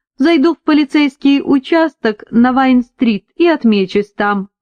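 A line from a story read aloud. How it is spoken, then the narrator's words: Laughing. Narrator (Russian): рассмеялся Кристофер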